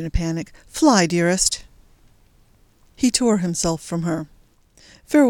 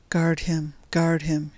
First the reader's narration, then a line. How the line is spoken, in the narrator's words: she sighed